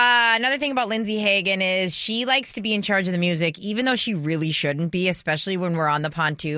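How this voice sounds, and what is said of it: Usual voice. Nothing is said of it.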